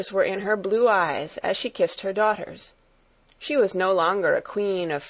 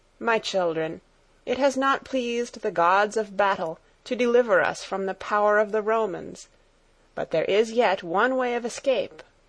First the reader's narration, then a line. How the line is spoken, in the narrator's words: she said sadly